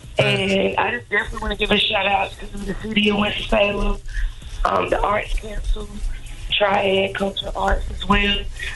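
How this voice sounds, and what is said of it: Hoarse, strained lost voice. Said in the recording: “sorry about my voice. I lost it over the weekend ... You was out there screaming.”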